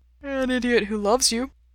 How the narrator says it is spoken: Ray says with a yawn

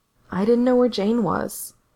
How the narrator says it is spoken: he started miserably

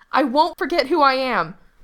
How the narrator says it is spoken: Gerard yelled through the glass

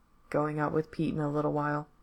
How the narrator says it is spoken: Mikey mumbles

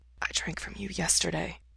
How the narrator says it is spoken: Mikey whispers

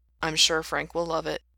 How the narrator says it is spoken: Mikey said blandly

